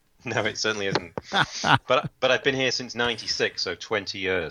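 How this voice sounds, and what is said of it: English accent. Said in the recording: “I'm the English guy in Canada... that's not a Canadian accent”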